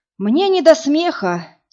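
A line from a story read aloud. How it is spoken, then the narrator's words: Heavy sigh. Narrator (Russian): тяжело вздохнул Вадим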